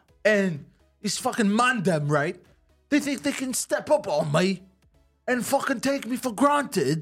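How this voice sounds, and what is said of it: Put-on accent, slipping at times. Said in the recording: “His accent broke a few times during that. ... it's not bad, because there you kind of sound more like a Guy Ritchie movie.”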